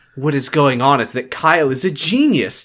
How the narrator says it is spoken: Jesse exclaimed

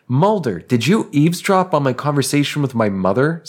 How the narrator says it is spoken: Scully exclaimed

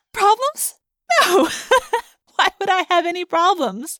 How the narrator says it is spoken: I giggled ... giggled some more

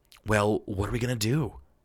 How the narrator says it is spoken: Jetty muttered

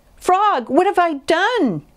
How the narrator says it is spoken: cried Toad

